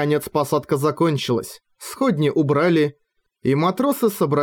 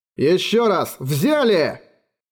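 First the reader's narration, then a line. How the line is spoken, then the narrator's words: Shouted. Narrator (Russian): крикнул Роран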